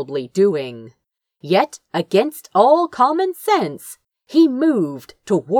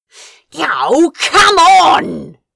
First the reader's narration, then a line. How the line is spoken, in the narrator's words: he shouted